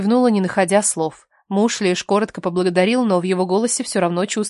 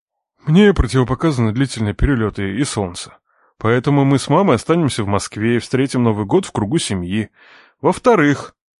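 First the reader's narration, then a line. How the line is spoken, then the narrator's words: Calm. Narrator (Russian): произнес Владимир Николаевич спокойно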